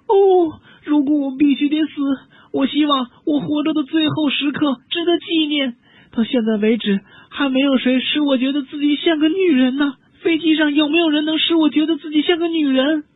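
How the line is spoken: Wailing shout. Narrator (Chinese): 他嚎啕大哭，接着又大喊道

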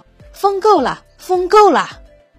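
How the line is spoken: Frightened shout. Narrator (Chinese): 皇帝心里害怕，大声喊道

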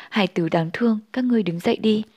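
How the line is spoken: Soft sighing. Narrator (Vietnamese): Đạo Huyền Chân Nhân khẽ thở dài bảo

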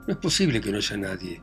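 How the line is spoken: Cheerful, ringing voice. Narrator (Spanish): dijo el recién llegado con una voz alegre, sonora

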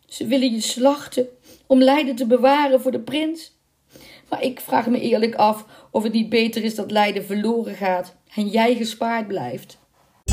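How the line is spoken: Sobbing. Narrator (Dutch): snikte

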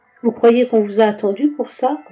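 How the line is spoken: Growled. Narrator (French): gronda Delic

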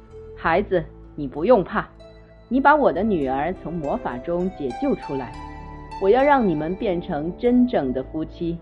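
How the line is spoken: King, relieved and laughing. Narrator (Chinese): 国王终于释怀了，笑着说

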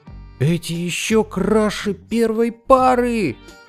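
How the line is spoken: Exclaimed. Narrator (Russian): воскликнул сапожник

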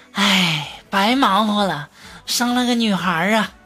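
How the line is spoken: Sighing old woman. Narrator (Chinese): 同事的这个婆婆啊，就在外面叹气呀，说

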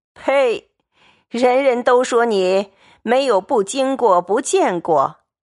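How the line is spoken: Laughing. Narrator (Chinese): 贾母笑道

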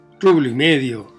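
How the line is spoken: Boy exclaiming. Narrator (Spanish): exclamó el muchacho

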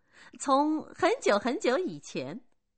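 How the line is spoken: Laughing. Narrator (Chinese): 米拉笑着说

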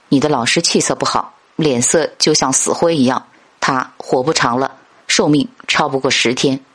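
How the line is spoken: Hushed whisper. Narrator (Chinese): 季贤压低声音，悄悄对列子说

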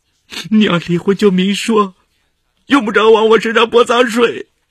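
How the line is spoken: Crying. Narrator (Chinese): 他哭着说

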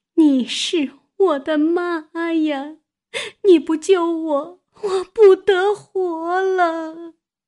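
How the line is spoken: Sobbing. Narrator (Chinese): 呜呜咽咽的哭起来，说道

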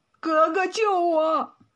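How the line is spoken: Tearful, pleading voice. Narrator (Chinese): 陈虎哭丧着脸说

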